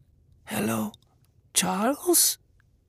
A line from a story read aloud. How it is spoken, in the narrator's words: mother whispered